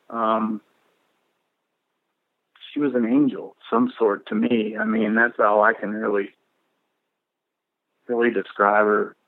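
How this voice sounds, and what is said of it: Emotional, choked-up voice. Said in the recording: “I'm getting a little emotional”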